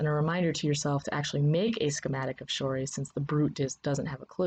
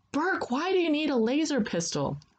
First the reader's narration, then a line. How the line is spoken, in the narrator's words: Hoshi shouts after you